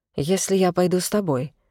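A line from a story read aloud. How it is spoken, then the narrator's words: Low voice. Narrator (Russian): вполголоса произнесла я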